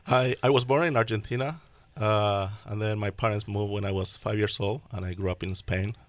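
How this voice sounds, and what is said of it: Slight Spanish-speaker's accent. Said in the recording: “there's a little accent in your voice ... Therefore, the accent you may notice.”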